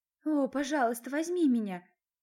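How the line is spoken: Moaning. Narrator (Russian): застонала я

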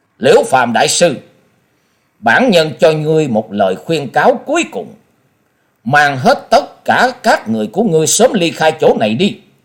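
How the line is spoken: Stern. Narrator (Vietnamese): Quyết Ma Thiên Tôn nghiêm nghị hướng về phía Liễu Phạm Đại Sư và nói

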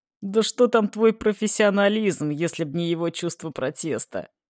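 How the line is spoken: Loud laughing father. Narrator (Russian): хохотал отец

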